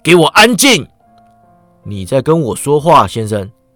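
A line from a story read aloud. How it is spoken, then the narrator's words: Captain roaring. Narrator (Chinese): 船长吼道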